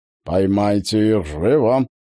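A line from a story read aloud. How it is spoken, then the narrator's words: Growling from mouth corner. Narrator (Russian): прорычал Станислав левым краем губ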